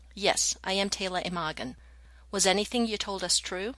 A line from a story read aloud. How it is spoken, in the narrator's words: coldly, Taylor said